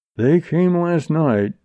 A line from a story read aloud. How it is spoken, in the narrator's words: said grimly